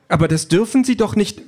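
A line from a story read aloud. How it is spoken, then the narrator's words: Call. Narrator (German): ruft Calliope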